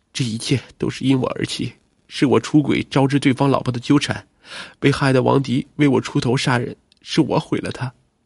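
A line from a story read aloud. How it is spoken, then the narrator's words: Sobbing in anguish. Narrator (Chinese): 李玲 哭得痛不欲生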